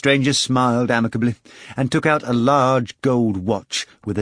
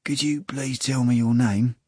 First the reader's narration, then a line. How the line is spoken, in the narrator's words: Steopa whispered